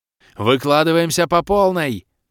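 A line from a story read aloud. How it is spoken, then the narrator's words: Ringing yell. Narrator (Russian): звонко вопила Кирея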